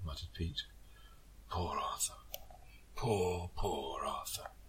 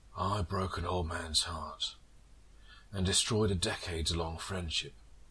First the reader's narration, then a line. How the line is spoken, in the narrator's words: Pete said bitterly